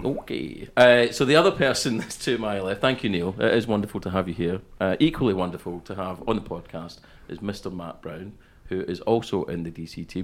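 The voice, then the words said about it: Scottish accent. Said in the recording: “I actually come from Paisley in Scotland, but obviously, as you can tell that by the accent ... moved to the west coast of Scotland. And at some point in that journey, I think you've given me your accent as was.”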